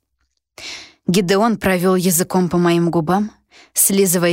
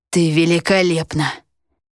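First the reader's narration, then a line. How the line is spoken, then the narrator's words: Hoarse whisper. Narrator (Russian): хрипло прошептал Гедеон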